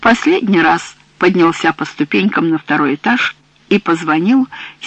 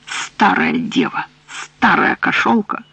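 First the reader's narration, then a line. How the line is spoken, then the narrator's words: Muttering. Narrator (Russian): Пробормотав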